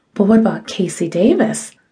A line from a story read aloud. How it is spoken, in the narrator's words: spluttered